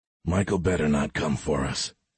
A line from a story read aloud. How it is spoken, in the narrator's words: X muttered to himself